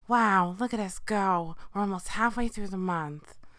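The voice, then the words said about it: Imitates another person's voice. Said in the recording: “my Jennifer Coolidge impression, but I need to work on it”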